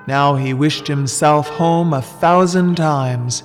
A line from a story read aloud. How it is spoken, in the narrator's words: said he